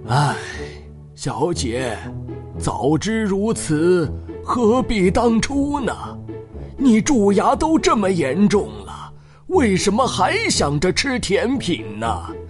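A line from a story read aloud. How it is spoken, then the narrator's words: Heavy sigh. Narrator (Chinese): 长叹了一口气，说道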